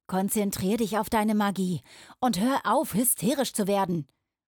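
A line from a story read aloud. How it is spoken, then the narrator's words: Called out. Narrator (German): rief Roden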